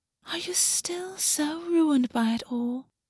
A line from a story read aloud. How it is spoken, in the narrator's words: Creel whispered after a moment, delighted